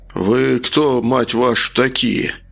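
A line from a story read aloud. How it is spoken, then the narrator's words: Through teeth, suppressing panic. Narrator (Russian): процедил, пытаясь совладать с нарастающей паникой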